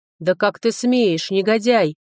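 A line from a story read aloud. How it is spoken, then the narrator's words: Growled. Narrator (Russian): прорычал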